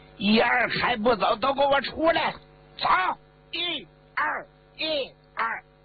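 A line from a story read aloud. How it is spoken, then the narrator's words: Loud shout. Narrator (Chinese): 江启也又喊了一嗓子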